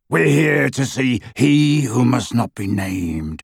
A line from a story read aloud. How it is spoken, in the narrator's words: rasped Greyback